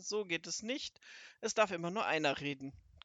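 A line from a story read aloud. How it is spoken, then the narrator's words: Calling out. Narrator (German): rief er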